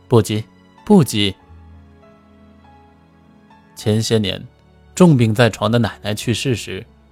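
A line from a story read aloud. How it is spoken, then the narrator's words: Smiling farewell. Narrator (Chinese): 顾满的妻子 笑盈盈的与他道别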